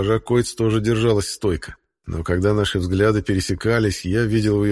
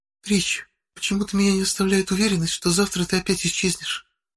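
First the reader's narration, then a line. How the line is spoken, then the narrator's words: Hot close whisper. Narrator (Russian): шепотом произнесла, обжигая мое ухо своим горячим дыханием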